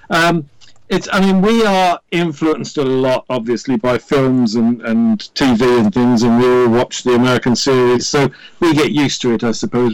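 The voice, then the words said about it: Welsh accent. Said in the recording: “who is in Wales in the United Kingdom ... Gotta love the accent also.”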